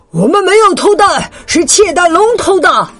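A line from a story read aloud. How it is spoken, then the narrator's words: Shouting. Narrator (Chinese): 大脚喊道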